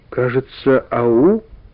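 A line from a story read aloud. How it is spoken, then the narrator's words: Uncertain reply. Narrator (Russian): неуверенно ответил Карик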